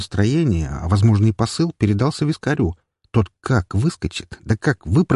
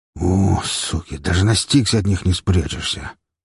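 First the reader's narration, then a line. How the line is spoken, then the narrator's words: Grumbling man. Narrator (Russian): Продолжая бурчать, мужик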